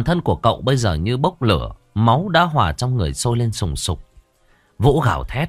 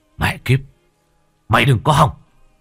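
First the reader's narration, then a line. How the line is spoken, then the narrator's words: Screaming. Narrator (Vietnamese): Cậu gào lên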